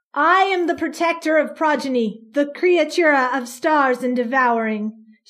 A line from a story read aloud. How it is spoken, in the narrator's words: she said, her voice booming over the noise of the mob